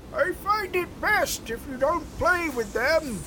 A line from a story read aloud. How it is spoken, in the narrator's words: the man shouted, his voice muffled by the wind